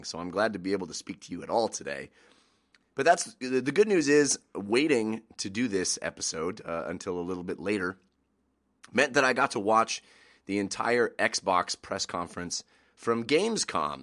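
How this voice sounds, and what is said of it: Congested voice from a cold. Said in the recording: “excuse my voice today. I woke up with uh, quite a bit of a cold and a lot of congestion, and I really actually couldn't even speak at all this morning.”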